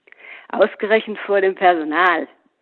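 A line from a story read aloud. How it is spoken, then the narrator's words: Mocking. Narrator (German): höhnte Paul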